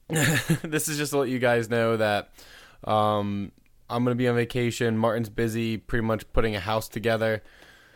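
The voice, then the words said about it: Raspy, hoarse morning voice. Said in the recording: “My throat is really raspy.”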